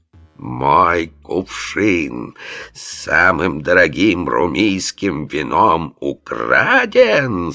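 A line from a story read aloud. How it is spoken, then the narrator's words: Roaring in terrible voice. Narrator (Russian): Страшным голосом взревел глава городской стражи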